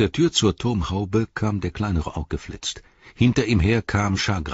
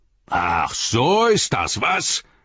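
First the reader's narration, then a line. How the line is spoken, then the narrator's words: Bellowing. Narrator (German): brüllte Shagrat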